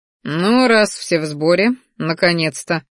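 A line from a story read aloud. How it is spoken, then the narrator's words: Wry grunt. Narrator (Russian): хмыкнул Салдар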